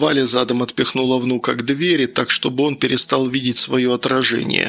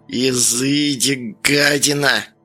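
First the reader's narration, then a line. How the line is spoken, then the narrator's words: Old woman spitting words out. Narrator (Russian): процедила бабка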